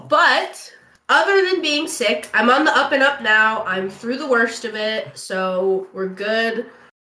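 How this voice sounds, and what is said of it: Deep, congested, sick-sounding voice. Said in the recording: “you guys can probably hear it. I sound like a man ... my voice is still trying to come back. I'm still kind of like congested”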